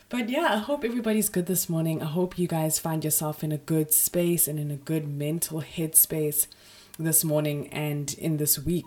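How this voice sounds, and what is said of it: Raspy, deeper hoarse voice. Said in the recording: “I have a little bit of a sore throat and a sore ear. So if I sound a bit raspy, a bit more Barry White than usual”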